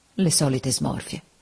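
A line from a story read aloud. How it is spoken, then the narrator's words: Quiet, to oneself. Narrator (Italian): piano, quasi tra sé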